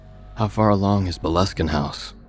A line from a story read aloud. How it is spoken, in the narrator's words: I asked eventually